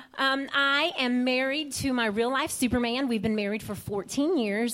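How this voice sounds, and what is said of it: Southern American accent. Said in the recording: “I'm the first Hispanic with a southern accent that you will probably meet.”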